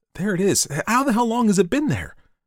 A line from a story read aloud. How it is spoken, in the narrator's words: His voice rose excitedly